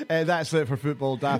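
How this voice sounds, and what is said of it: Exaggerated radio presenter voice. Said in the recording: “accent. ... It's your mad radio talk that you do.”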